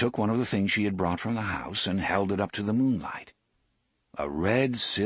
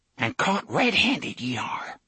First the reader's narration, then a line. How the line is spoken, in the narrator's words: she whispered